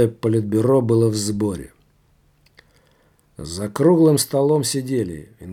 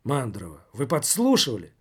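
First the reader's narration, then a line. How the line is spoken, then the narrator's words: Exclaimed. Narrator (Russian): воскликнул отрицатель отрицателей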